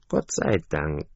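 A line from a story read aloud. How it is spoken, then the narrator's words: Duckling's sigh. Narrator (German): seufzte das Entlein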